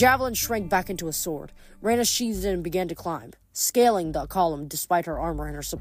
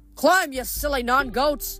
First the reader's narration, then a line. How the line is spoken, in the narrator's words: Hedge yelled